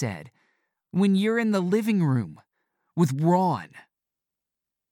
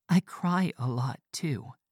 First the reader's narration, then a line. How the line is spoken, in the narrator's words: she said quietly